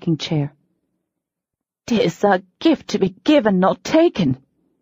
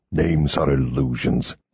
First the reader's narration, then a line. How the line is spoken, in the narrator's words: he growled